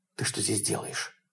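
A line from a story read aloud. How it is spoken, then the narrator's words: Whispered. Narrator (Russian): прошептал он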